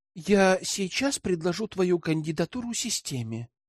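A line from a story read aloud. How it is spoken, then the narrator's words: Uncertain. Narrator (Russian): неуверенно ответила Тиана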